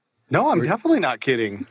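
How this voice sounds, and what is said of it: Serious, deadpan voice. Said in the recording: “that's serious voice. ... Yeah, that's my serious voice.”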